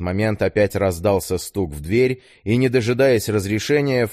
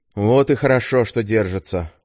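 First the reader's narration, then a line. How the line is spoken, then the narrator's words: Satisfied sigh. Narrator (Russian): удовлетворенно вздохнул Клюев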